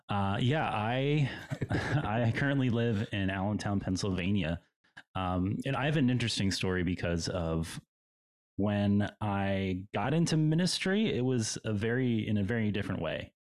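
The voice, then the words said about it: Rich radio-announcer style voice. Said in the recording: “You have a great voice, by the way. You could totally be like a radio voice guy.”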